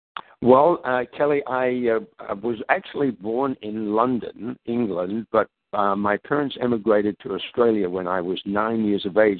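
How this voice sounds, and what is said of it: Pleasant non-American English accent. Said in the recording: “you have a wonderful accent.”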